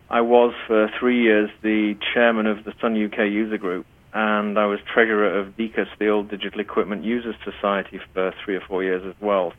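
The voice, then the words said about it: British accent. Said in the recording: “from way back in the UK, which is where I originate from, as you can probably tell by my accent.”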